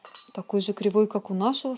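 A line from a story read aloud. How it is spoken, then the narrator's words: Plain. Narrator (Russian): сказал он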